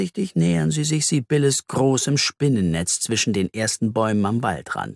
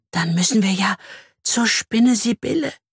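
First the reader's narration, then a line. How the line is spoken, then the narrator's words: Fearful whisper. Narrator (German): flüstert sie ängstlich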